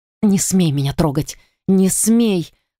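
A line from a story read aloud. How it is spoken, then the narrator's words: Hoarse shaken whisper. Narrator (Russian): хрипло зашептала я, все еще не в силах прийти в себя от произошедшего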